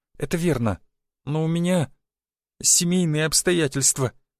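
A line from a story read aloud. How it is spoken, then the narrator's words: Strained, tearful. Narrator (Russian): выдавила Марьяна, и в ее глазах заблестели слезы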